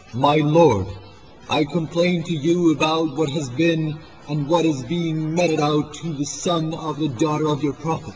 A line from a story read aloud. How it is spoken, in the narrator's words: Imam exclaimed